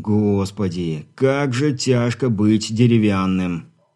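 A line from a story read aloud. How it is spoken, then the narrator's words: Weary sigh. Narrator (Russian): устало вздохнув, выдал Ерохин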